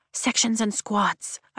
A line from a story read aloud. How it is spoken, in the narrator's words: I whisper to Rhiannon